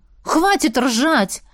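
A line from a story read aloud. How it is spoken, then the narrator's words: Exclaiming. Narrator (Russian): Воскликнула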